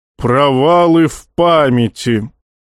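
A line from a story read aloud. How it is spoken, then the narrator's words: Rich booming voice. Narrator (Russian): сочно прогудел Назон, заставив дрожать оконное стекло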